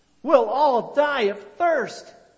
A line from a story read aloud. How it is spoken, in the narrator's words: they cried